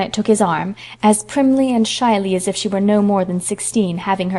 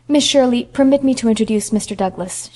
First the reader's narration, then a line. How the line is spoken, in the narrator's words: she said stiffly